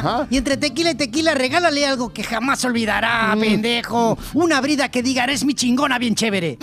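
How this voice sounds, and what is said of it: Put-on Mexican accent. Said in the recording (Spanish): “tienes que fingir más el acento mexicano.”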